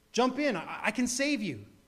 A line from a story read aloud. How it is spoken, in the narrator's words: the fellow in the motorboat shouted